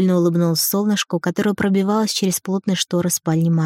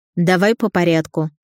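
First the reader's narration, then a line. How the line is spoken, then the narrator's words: Stern, clipped, hint of curiosity. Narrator (Russian): строго отчеканила Кучерова, но я слышала любопытство в ее голосе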